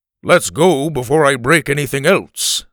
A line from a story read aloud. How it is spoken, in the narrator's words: Alf said in his booming voice